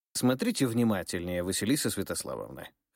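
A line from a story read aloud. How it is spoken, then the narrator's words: Snorting. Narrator (Russian): хмыкнул Ерофеев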